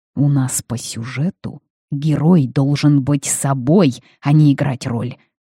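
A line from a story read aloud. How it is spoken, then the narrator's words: Hissing. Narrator (Russian): зашипел Харрис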